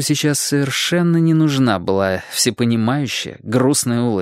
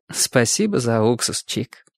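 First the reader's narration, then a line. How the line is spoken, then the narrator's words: Sad, understanding tone. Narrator (Russian): всепонимающе, грустно улыбнулась Чику и сказала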